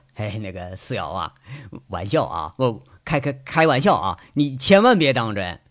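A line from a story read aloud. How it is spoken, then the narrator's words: Still laughing. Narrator (Chinese): 杨伟笑意未退，说了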